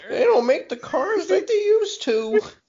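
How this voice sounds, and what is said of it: Old lady voice impression. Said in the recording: “good old lady impression”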